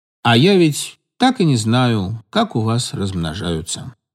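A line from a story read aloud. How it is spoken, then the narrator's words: Sad. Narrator (Russian): грустно сказал Игорь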